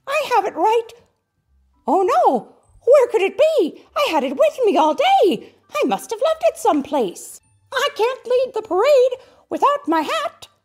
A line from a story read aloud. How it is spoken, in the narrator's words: Mickey cried